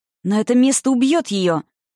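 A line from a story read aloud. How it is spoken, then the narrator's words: Exclaiming. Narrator (Russian): воскликнул он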